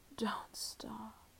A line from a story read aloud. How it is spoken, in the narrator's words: you'd moan to me